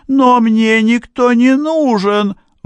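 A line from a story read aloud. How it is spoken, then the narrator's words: Exclaiming, woman. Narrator (Russian): воскликнула она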